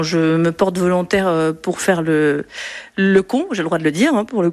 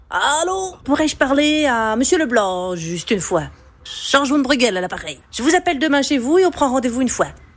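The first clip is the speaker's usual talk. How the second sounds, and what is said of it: Put-on Belgian accent. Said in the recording (French): “l'accent belge, je maîtrise à moitié ... Je prends l'accent belge ?”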